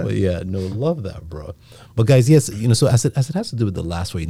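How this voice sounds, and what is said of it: Nigerian-accented English. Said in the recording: “with my accent... that Nigerian accent... that's a Nigerian accent”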